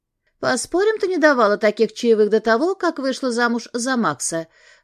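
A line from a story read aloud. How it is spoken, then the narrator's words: Cheerful remark. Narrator (Russian): заметила Олеся веселым тоном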